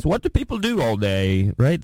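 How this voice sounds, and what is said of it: Put-on British accent. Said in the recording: “That's a good British accent.”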